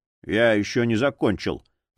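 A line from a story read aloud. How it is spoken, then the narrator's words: Grumbling. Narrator (Russian): проворчал Боул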